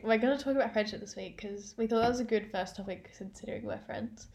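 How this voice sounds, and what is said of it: Congested, nasal voice. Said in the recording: “my voice is still a bit blocked up. ... Nasally.”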